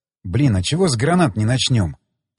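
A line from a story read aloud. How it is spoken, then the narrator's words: Muttered. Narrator (Russian): пробормотал я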